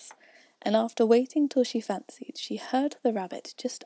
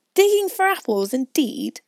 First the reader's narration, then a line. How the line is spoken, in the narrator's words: said the rabbit angrily